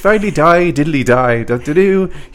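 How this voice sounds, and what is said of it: Bad Irish accent, Dracula-like. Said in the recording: “I fail to do accents consistently. ... Anytime I take a run at an accent, it always ends up being kind of Dracula. ... Here I am being Irish.”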